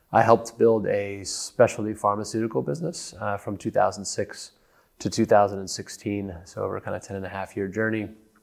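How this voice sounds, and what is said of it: American accent. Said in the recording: “my funny accent, I'm an American”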